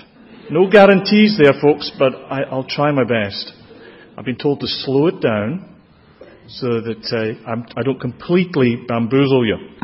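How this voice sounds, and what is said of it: Strong regional accent. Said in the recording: “you can see my lips move, which may help with the accent”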